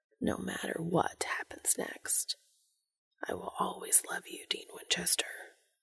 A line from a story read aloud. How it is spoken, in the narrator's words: Cass whispering